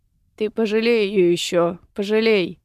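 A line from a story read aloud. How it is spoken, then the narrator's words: Gloomy reply. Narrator (Russian): мрачно отозвался Седов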